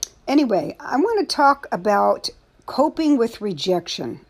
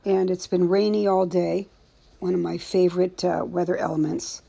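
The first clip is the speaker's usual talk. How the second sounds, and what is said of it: Sarcastic tone. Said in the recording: “being sarcastic,”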